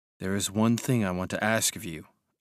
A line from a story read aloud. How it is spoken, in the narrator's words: said quietly